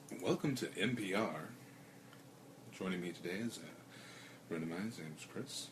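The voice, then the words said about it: Calm public radio announcer voice. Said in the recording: “You have to do your best public radio voice.”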